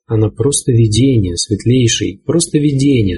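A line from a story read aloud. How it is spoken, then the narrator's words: Plain. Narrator (Russian): сказал он брату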